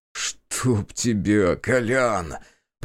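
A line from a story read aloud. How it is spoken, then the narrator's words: Groaned. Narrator (Russian): простонал я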